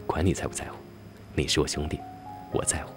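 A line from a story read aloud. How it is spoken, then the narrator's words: Low voice. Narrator (Chinese): 他低声说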